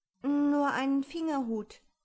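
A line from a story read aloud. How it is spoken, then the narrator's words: Sad speech. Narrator (German): sagte Alice traurig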